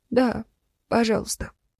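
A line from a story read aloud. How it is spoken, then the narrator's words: Barely audible answer. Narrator (Russian): еле слышно ответила Капитонова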